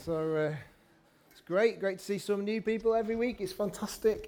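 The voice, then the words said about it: Mixed northern English accent. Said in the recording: “I've got a very multicultural accent of Manchester, Bolton, Liverpool.”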